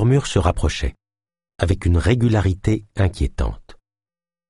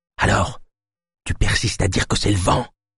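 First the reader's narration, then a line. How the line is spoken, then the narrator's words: Whispered. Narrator (French): chuchota Naya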